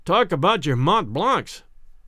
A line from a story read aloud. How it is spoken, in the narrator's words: he exclaimed